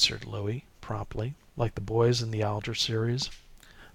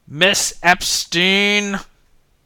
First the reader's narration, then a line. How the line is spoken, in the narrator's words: he bellowed